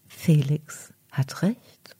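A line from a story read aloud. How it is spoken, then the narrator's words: Calm voice. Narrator (German): antwortet daraufhin mit ruhiger Stimme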